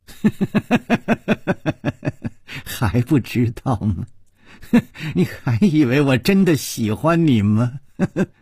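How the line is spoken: Laughing. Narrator (Chinese): 他不停地笑

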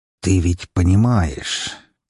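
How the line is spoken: Quiet, extremely menacing. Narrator (Russian): тихо и крайне угрожающе проговорил Лазарев

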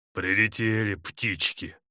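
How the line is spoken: Spiteful. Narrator (Russian): злобно проговорил Артем

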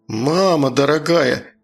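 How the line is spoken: Shocked forced-out words. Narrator (Russian): выдавил потрясенно Ромка

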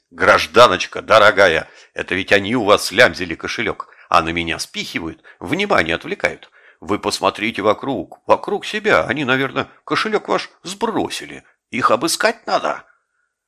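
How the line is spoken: Frantic shouting. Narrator (Russian): Вор, припадочно бившийся у меня в руках, кричал ей

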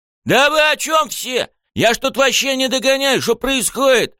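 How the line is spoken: Desperate wail. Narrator (Russian): С отчаянием завопил Рёдзи

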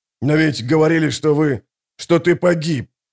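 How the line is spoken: Breathless. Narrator (Russian): выдохнул Гурни

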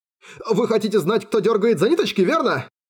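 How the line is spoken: Rapid chatter. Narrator (Russian): затараторил пленник

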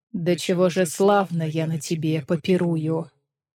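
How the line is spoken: Silky ingratiating voice. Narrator (Russian): Принц все тем же вкрадчивым голосом произнес

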